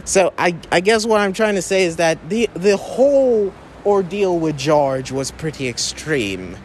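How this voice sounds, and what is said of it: Slipping into an Irish accent. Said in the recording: “I don't know where my Irish accent is coming from, but it's seeping through.”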